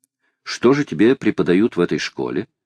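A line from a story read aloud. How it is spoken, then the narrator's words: Plain question. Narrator (Russian): спросила леди Элен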